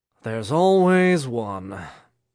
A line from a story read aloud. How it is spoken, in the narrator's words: Dean Blaine said with a sigh